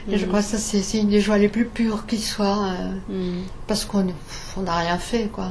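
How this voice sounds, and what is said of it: Alsatian French accent. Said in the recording (French): “avec notre accent alsacien, hein. Grâce.”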